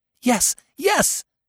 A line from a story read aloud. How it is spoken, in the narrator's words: cried all the boys